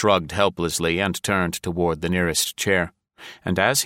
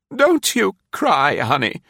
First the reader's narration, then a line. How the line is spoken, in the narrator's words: she begged brusquely